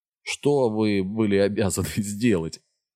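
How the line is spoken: Laughing. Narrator (Russian): Аарон засмеялся

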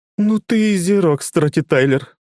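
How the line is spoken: Through gritted teeth. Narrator (Russian): цедит Цилли сквозь зубы

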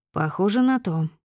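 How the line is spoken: Calm. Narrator (Russian): спокойно произнес мой босс

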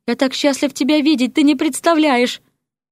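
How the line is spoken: Babbling from below. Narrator (Russian): лепетал с первого этажа князь

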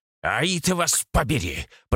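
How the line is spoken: Growled. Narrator (Russian): прорычал я

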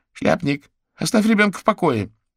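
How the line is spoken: Angry shout. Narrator (Russian): сердито прикрикнула на него Альма

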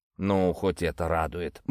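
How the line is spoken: Grumble. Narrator (Russian): буркнул Покровский

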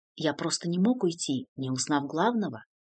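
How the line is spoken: Gentle smiling reply. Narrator (Russian): мягко улыбаясь, ответил Артью

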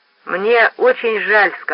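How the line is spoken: Plain. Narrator (Russian): сказал он

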